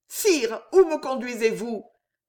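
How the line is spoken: Panicked, struggling cry. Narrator (French): s'écria Jeanne en se débattant, affolée

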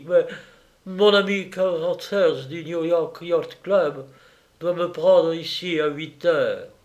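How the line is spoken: Pitiful voice. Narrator (French): dit Morlaix d'une voix pathétique

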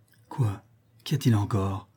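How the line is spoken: Weak voice. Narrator (French): demanda Vergeot d'une voix faible

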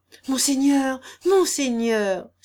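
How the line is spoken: Exclaiming. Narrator (French): s'écria le bailli

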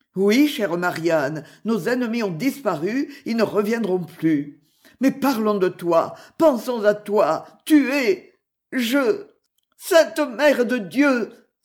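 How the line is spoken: Exclaimed. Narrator (French): s'écria Robin

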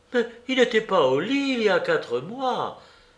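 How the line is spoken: Indignant exclamation. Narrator (French): s'écria Sophie, indignée de ses suppositions

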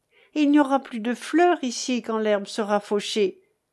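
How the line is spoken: Cheerful exclamation. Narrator (French): m'écriai-je gaiement

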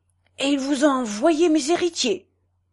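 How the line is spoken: Indignant exclamation. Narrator (French): s'écria Ponce indigné

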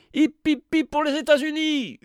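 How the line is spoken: Winners shouting. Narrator (French): hurlèrent les gagnants de la victorieuse Amérique

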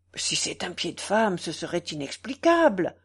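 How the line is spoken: Exclaimed. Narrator (French): s'écria Blondet

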